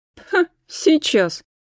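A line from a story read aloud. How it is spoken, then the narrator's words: Snorting. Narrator (Russian): фыркнула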